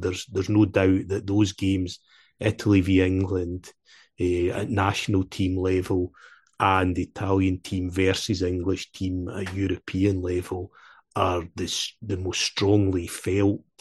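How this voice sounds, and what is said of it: Scottish accent. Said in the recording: “as you'll have guessed from the accent, is that I'm a Scottish Italian”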